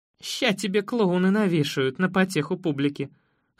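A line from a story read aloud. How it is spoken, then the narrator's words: Chuckling. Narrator (Russian): хохотнула Лора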